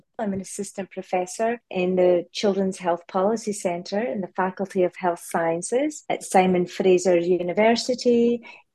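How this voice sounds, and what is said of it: Slight Scottish accent. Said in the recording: “I grew up in Scotland, so I do have a bit of an accent.”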